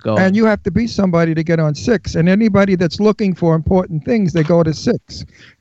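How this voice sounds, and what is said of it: Brooklyn New York accent. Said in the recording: “I'm from Brooklyn ... I love your accent ... real New York, Brooklyn”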